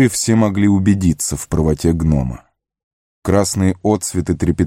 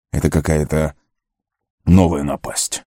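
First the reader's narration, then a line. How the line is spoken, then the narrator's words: Grumbling. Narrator (Russian): проворчал он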